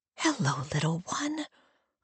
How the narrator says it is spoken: I whisper

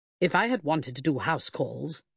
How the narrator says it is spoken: Sidney Grice grumbled

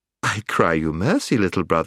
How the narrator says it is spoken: laughed the witch

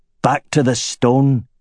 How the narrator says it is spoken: he growled

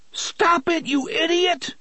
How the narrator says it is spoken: Balazar screamed

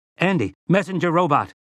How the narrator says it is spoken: Eddie shouted

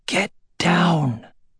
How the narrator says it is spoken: said in a strained whisper

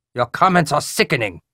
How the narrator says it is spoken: Cho snapped

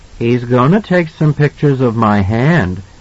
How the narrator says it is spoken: Danny said gravely

